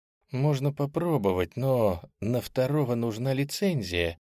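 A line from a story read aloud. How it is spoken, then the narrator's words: Girl's uncertain voice. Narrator (Russian): неуверенно произнесла девушка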